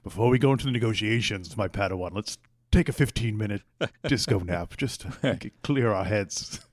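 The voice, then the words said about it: Imitates another person's voice. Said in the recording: “my Liam Neeson impression? ... It was a good one, yeah. ... I could tell who it was.”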